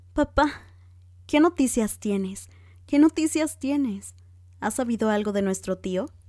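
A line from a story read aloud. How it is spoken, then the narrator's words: Panting, unrestrained exclamation. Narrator (Spanish): Elizabeth, jadeando, exclamó sin contenerse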